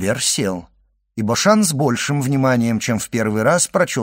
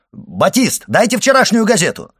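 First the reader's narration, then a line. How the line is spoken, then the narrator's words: Shout. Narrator (Russian): крикнул Башан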